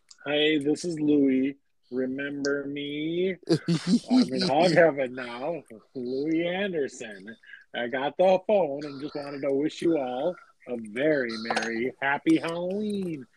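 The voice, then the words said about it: Impression of Louie Anderson. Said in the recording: “I'm kind of doing the voice. ... It's me, Louie. ... Just that voice.”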